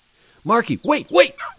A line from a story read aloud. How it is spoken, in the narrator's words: Tim yelled